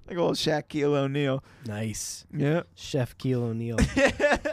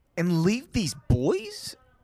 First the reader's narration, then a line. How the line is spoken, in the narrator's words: Robbie asked